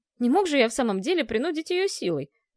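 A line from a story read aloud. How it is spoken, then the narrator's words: Irritated male reply. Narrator (Russian): раздраженно отозвался хозяин замка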